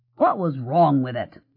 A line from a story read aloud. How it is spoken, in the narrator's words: Jim said testily